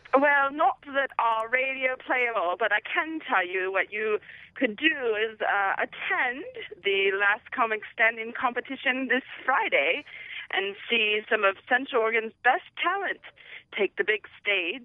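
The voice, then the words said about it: Put-on accent. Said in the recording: “You sound lovely ... I'm not going to make you do that accent the whole time”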